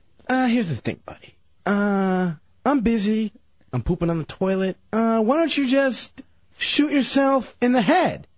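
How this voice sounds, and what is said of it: Awful imitation of another person's voice. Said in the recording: “Is that an impression of me? ... his awful impression ... This is not how I sound.”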